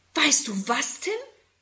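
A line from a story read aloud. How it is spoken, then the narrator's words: Excited question. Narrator (German): fragt Susi aufgeregt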